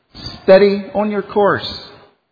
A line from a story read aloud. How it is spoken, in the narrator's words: he cried to the man at the wheel